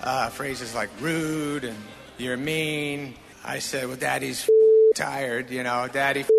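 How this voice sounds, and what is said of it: Usual voice. Nothing is said of it.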